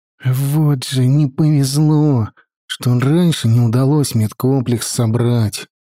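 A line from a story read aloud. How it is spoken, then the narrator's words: Sighing. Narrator (Russian): вздохнул Петька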